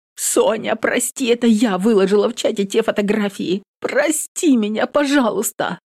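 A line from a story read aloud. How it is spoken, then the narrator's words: Sobbing. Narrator (Russian): Всхлипывает Соловьева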